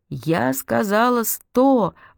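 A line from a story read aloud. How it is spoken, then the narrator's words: Sudden yell, strange voice. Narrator (Russian): вдруг заорала Марсём не своим голосом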